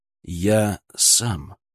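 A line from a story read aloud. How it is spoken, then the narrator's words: Quiet but whip-sharp. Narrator (Russian): произнес я тихо, но мой голос прозвучал в гулкой тишине приемного покоя, как удар хлыста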